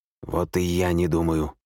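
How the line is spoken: Hoarse rasp. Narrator (Russian): прохрипел бездомный

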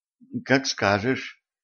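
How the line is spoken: Uncertain mumble. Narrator (Russian): неуверенно пробормотала Катран

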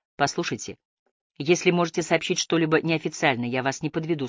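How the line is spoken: Plain. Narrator (Russian): сказала сэр Тейн

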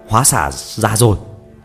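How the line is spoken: Loud shout. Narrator (Vietnamese): Phi Phàm lớn tiếng hô

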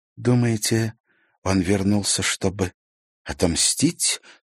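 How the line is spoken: Frightened question. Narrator (Russian): испуганно спросила Дева

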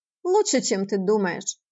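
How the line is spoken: Amused snort. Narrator (Russian): хмыкнул Леонард

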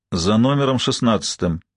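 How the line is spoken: Gloomy answer. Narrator (Russian): мрачно ответила Ма

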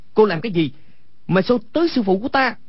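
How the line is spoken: Angry shout. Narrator (Vietnamese): Quách Tĩnh tức giận quát lên

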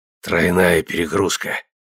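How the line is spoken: Hoarse, forced smile. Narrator (Russian): прохрипел он, силясь улыбнуться

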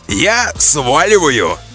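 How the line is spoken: Loud. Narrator (Russian): громко сказал Борзов

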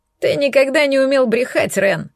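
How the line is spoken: Snorting old man. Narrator (Russian): фыркнул дед

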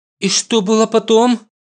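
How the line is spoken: Frightened question. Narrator (Russian): Уже испуганно спрашивает Хюбин

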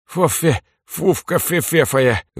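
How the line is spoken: Toothless lisp. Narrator (Russian): выплюнув половину зубов, прошепелявил Митька

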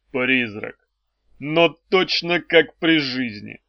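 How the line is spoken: Muffled, hollow voice. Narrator (Russian): глухо сказал он

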